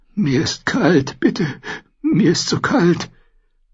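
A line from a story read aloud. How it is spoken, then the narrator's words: Repeated stammering. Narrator (German): stammelte er immer nur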